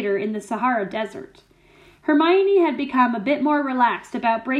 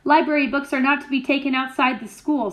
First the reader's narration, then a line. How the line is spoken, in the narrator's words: said Snape